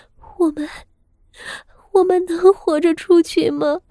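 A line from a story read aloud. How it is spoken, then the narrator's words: Sorrowful faint crying. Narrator (Chinese): 傅妙仪悲切的细声哭道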